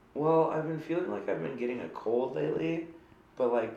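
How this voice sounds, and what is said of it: Stuffy, congested voice. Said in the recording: “I sound stuffy. ... You sound a little stuffy.”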